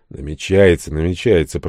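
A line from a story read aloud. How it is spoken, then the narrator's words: Grumbling. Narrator (Russian): проворчал дядя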